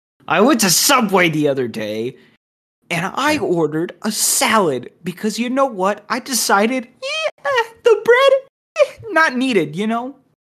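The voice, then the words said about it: Lowered, seething angry voice. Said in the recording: “I'm gonna lower my voice here because I don't want to break people's earbuds ... you can hear the rage seething in my voice”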